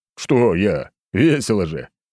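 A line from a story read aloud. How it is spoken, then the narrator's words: Loud laughter. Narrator (Russian): хохотал я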